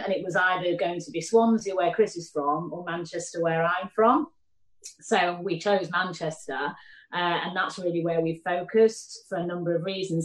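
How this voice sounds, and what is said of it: Mancunian accent. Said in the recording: “my Mancunian accent”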